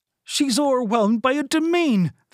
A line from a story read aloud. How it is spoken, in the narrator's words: Finta cried